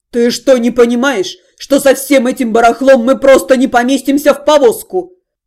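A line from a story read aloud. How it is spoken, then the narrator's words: Angry shouting. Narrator (Russian): Багровый от гнева кричал Дальшер на Зальфию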